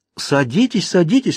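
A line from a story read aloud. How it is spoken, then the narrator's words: Exclaimed. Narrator (Russian): воскликнула она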